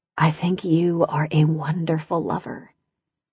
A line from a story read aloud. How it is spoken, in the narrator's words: She curled up to him and whispered